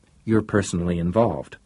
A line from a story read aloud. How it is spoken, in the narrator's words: said Breckenridge coldly